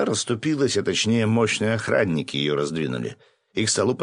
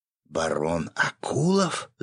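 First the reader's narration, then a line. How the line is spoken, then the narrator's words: Whispering from all sides. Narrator (Russian): зашептались со всех сторон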